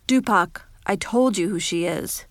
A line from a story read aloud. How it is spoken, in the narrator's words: he just said